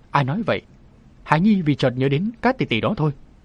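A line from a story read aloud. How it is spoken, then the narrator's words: Laughing. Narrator (Vietnamese): Lăng Vân Yến bật cười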